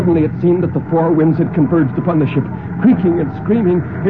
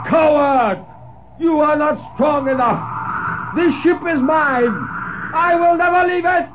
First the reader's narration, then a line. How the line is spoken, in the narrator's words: he roared